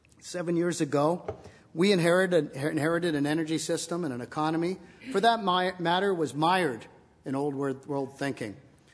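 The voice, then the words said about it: Hoarse, strained voice. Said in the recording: “as my throat starts to grow hoarse”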